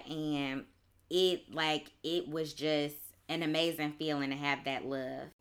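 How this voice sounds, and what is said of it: Choked-up, emotional voice. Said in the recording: “getting a little choked up right now”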